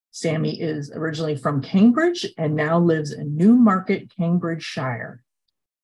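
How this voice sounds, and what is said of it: Noticeable regional accent. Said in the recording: “beautifully read in that wonderful accent of yours”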